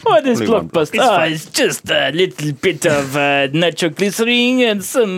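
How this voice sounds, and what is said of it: Put-on Russian accent. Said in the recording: “This is my Russian accent.”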